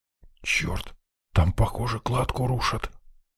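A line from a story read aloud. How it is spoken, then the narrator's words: Whisper. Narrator (Russian): прошептал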